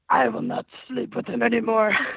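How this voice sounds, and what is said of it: Scary Exorcist-style possessed voice. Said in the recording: “the Exorcist voice you did in it ... In the Exorcist voice? ... it's scary in here now.”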